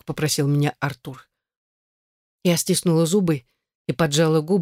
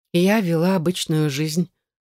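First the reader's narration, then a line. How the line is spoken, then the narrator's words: Dry, emotionless. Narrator (Russian): сказала сухим, безэмоциональным тоном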